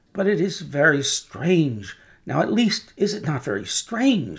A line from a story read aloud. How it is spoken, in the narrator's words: said Defarge, rather pleading with his wife to induce her to admit it